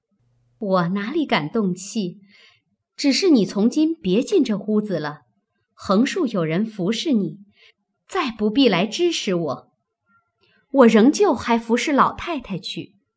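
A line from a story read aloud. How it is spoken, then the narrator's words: Cold sneering. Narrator (Chinese): 袭人冷笑道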